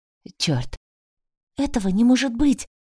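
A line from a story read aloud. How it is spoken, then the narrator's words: Whispered. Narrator (Russian): прошептала я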